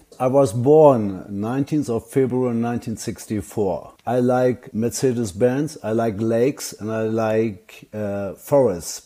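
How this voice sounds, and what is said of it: Speaks with a foreign accent. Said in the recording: “he's got an accent.”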